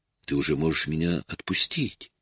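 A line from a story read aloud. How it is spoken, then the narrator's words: Soft barely voiced whisper. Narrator (Russian): тихо одними губами прошептала она ему на ухо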